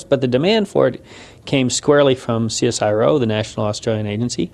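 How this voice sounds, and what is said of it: American accent. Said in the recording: “you've spotted the accent. I am a Yank ... this is more an American thing”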